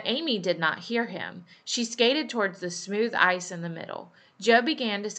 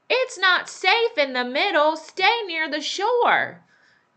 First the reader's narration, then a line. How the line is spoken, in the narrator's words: Lori shouted